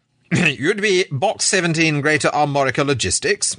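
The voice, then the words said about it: Heavy English accent. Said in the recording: “he inquired, in a heavy English accent.”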